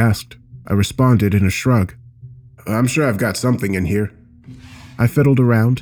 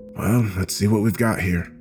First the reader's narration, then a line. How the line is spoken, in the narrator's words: I whispered out into the room, more to myself than to Studson